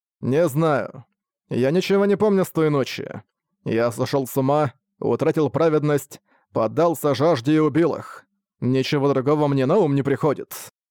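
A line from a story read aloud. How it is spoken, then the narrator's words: Dry tone. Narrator (Russian): сухим тоном сказал Лебрахард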